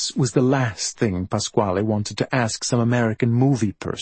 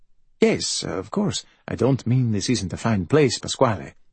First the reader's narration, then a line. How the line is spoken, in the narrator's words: said Dr